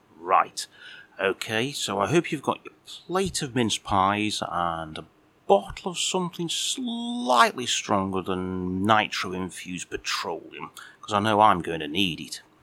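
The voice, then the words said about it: Northern English Stoke-on-Trent accent. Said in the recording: “the Northern Stoke-on-Trent accent”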